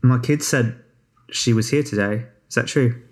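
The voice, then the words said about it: Slight Australian accent. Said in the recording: “with a slight Australian accent ... but not too much”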